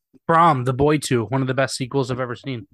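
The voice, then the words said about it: Sarcastic delivery. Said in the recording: “I'm just kidding. That was a joke. That was a joke. That was sarcastic.”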